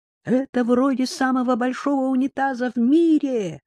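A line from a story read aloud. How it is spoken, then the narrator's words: Shouted. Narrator (Russian): прокричал он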